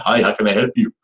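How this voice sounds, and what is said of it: Imitated overseas call-center accent. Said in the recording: “you can hear the guy with an accent ... you know that they're calling from overseas”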